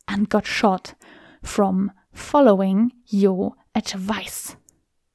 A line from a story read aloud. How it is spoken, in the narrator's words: He took a deep breath and spat